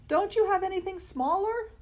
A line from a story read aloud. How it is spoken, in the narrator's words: Arthur shouted